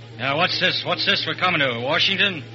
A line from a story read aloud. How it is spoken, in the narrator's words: the fat man shaving in the Pullman washroom grunts